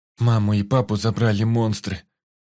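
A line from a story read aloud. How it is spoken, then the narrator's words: Tearful mutter, boy. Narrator (Russian): сквозь слезы пробормотал мальчик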